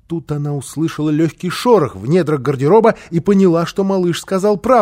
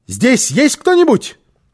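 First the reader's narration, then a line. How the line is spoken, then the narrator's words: Shout. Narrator (Russian): крикнула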